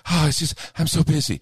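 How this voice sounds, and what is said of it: Breathless, out-of-breath delivery. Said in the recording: “why are you out of breath all of a sudden? ... Now you're out of breath.”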